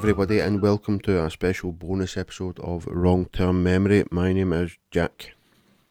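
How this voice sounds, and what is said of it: Raspy, sore-throated voice. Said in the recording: “I've got a bit of a sore throat. I don't know if you can hear it. Pretty raspy.”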